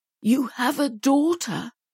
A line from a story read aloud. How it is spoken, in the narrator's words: he finally stammered, his voice thick with emotion